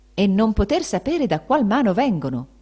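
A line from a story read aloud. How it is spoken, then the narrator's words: Exclaimed. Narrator (Italian): esclamava Benedetto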